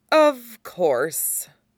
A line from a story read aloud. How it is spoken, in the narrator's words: Severin says